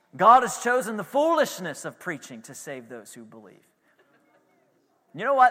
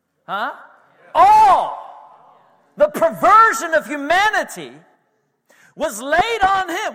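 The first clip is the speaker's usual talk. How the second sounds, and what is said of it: Yelling preacher delivery. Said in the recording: “Why are you yelling”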